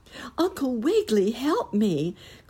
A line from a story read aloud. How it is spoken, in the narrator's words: cried Nurse Jane as she felt the March wind beginning to raise the rug and her with it